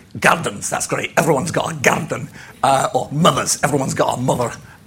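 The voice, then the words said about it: Attempted Glaswegian accent. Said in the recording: “I can't do a very good Glaswegian accent.”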